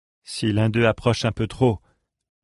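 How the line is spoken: Murmured. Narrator (French): murmura Lindor

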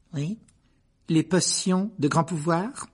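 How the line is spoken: Suspicious repetition. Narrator (French): répéta-t-elle d'un ton soupçonné

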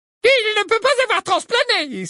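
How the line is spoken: Exclaimed. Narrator (French): s'exclama Ombrage

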